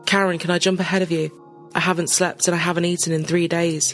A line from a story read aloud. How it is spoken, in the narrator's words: said